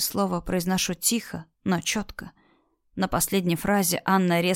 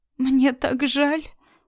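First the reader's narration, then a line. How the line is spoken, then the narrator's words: Sobbing woman. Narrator (Russian): всхлипывает женщина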